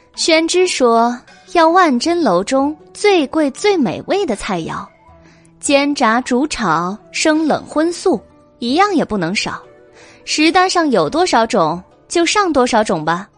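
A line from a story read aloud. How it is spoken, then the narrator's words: Laughing. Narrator (Chinese): 白姬却笑道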